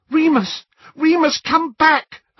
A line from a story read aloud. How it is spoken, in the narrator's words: Hermione cried